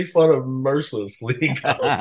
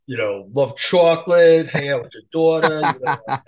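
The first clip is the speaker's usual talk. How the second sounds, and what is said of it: Thick New York accent. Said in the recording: “the thickest New York accent ... my accent was super thick back then ... Used to talk like this ... super strong accent”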